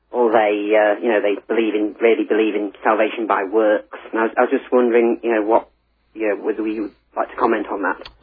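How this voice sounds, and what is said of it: Northeast English accent. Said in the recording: “you do sound a little bit like my friend Colin Smith ... I think you must come from about the same area as he did ... I come from the northeast of England.”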